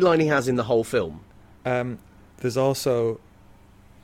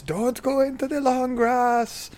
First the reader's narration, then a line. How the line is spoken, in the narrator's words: he shouts